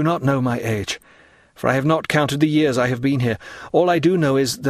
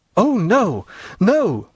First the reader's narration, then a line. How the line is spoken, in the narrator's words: cried Dantès